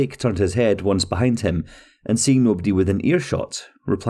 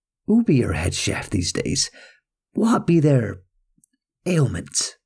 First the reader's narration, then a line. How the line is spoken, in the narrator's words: lowering his voice a little, he said